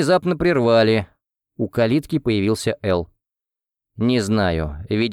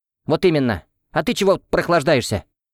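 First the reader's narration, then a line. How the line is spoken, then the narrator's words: Barked. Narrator (Russian): Рявкнула Марьяна на Элла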